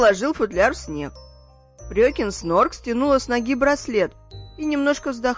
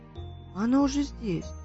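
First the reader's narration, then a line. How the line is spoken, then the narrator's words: Child muttering. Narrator (Russian): пробормотал малыш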